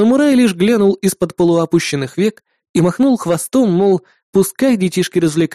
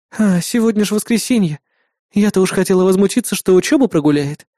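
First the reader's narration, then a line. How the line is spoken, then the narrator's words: Sighing. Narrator (Russian): вздохнула напарница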